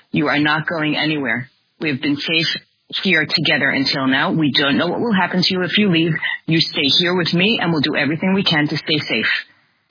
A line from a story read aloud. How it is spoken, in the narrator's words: very calmly said to him and assertively, she said